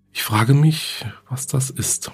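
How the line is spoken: Murmur. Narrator (German): murmelte Susan

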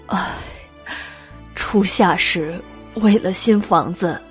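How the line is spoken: Sighing, weeping old man. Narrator (Chinese): 马大叹了口气，老泪纵横

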